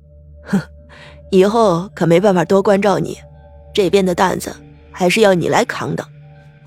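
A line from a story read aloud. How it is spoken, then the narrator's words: With a smile. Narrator (Chinese): 林然笑了笑，对李沐雨说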